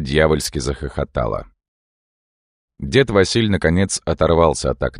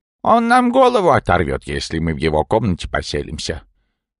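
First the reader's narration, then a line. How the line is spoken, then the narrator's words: Old man's snort. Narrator (Russian): хмыкнул дед Василь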